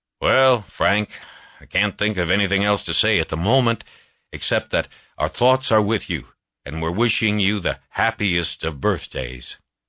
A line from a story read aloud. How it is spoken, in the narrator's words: said gruffly